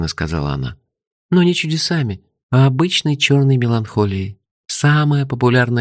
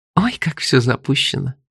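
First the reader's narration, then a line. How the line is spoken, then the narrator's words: Ringing laughter. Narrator (Russian): звонко рассмеялась она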